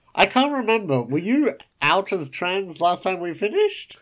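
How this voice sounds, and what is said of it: Usual voice. Nothing is said of it.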